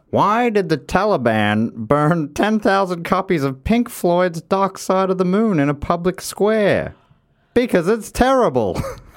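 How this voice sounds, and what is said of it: Imitates another person's voice, poorly. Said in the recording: “Apologies for the very poor impersonation there.”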